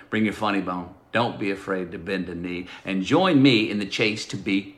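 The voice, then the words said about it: Pure Texan accent. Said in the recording (Spanish): “Con ese puro acento tejano, con ese flow”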